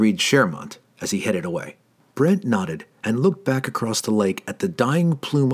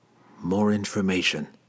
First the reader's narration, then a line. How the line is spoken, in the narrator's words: he muttered to himself